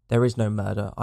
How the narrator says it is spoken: answered

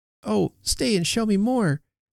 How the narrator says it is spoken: cried Effie

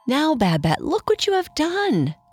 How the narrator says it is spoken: cried Antony

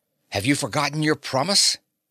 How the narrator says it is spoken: Fay said sharply, his face tightening in alarm

